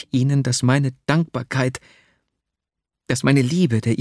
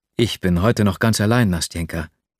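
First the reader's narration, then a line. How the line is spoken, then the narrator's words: Plain. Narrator (German): sagte ich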